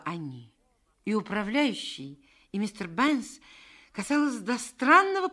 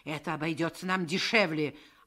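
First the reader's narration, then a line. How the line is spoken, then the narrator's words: Snapped. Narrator (Russian): огрызнулся управляющий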